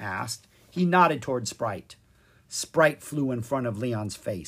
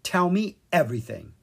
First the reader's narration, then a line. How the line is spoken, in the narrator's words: Leon said firmly